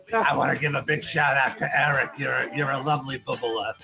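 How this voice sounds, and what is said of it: Raspy Harvey Fierstein impression. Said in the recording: “in my Harvey Firestein voice ... It already hurts my throat.”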